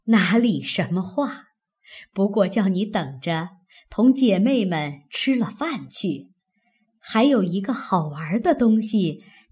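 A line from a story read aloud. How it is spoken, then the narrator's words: Laughing. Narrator (Chinese): 邢夫人笑道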